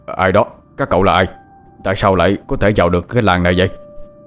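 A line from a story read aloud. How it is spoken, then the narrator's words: Panicked shout. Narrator (Vietnamese): có tiếng người thất thanh quát lên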